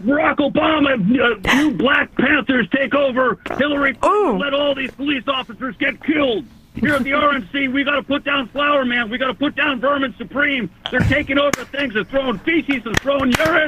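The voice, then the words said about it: Alex Jones impression. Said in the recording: “give me some Alex Jones ... that impression”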